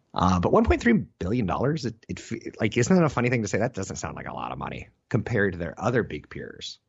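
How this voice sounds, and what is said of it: Tired, strained voice with vocal fry. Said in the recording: “I'm a little tired. My throat's fried, as you can hear. I've got vocal fry.”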